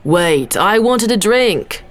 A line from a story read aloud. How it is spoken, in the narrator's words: Tama shouted